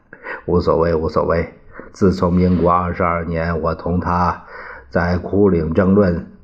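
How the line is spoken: Laughing. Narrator (Chinese): 宋子文也笑了

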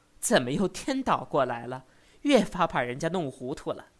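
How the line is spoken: Laughing. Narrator (Chinese): 柳元笑道

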